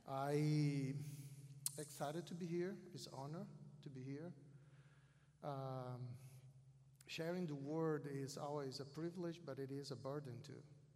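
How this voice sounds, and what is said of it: South American accent in English. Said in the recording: “English is not my first language, as you notice. And I do have a Southern accent, South American accent.”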